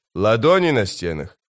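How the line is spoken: Skeptical snort. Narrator (Russian): скрипач хмыкнул

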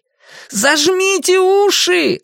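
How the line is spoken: Shouting again. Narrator (Russian): снова крикнул Люган

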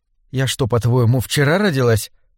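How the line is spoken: Whisper. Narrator (Russian): прошептала Беллис

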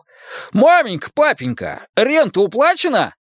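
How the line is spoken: Meek, forced cheerfulness. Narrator (Russian): Матиас покорно отвечал и изо всех сил старался звучать радостно

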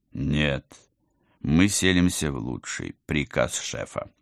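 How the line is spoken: Solemn. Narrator (Russian): торжественно поправил командор

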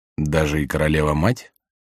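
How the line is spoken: Quiet question. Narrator (Russian): тихо спросил Рене

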